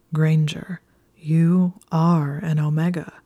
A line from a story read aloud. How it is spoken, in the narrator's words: said slowly